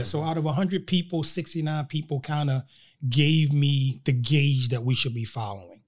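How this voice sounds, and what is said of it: Slight Baltimore twang. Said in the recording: “I hear a little bit of the twang in your accent because you said you're from Baltimore.”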